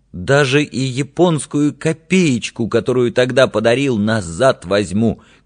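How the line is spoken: Thin trembling wounding shout. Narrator (Russian): крикнул ты тонким, дрогнувшим голосом, делая последнюю попытку уязвить меня

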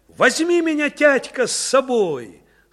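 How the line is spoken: Shouting. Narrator (Russian): Машутка отцу закричала

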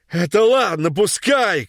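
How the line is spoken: Old man shouting. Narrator (Russian): кричал дед

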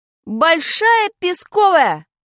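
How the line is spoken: Impulsive shout. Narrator (Russian): крикнул я, не раздумывая

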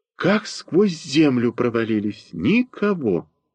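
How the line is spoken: Deep sigh. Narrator (Russian): глубоко вздохнув, произнесла

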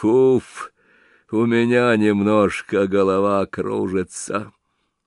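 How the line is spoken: Heavy sigh. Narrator (Russian): Тяжело вздохнув

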